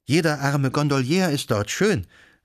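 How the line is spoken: Exclaiming. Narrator (German): rief sie aus

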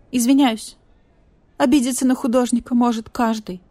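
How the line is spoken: Whining. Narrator (Russian): проскулил Скунс

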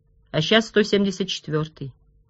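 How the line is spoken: Quiet. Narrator (Russian): тихо проговорил Росс

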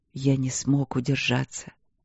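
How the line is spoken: Remorseful whisper. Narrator (Russian): покаянно шепнул он в ответ

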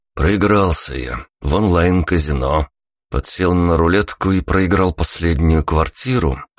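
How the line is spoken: Wry snort. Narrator (Russian): хмыкнул я

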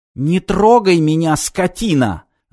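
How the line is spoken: Shrieking woman, being grabbed. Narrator (Russian): завизжала стриптизерша, когда охранник Инта бесцеремонно сгреб ее в охапку

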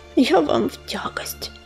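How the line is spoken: Whisper. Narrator (Russian): прошептала Ромашка

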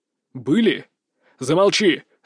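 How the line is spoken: Barked. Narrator (Russian): рявкнул я

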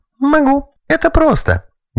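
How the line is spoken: Girl giggling cheerfully. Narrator (Russian): Девочка весело хихикнула

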